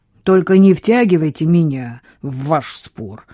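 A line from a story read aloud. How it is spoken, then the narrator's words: Grumbling. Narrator (Russian): проворчал Самюэль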